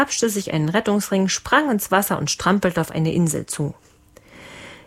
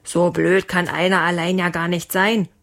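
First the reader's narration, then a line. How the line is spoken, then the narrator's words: Father roaring. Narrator (German): brüllte Leons Papa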